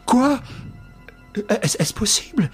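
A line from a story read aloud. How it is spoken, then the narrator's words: Stammering. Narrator (French): bégaya-t-il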